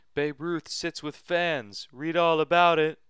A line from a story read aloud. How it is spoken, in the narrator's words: Jacob and I called out